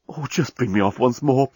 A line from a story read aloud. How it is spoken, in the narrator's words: pleaded the journalist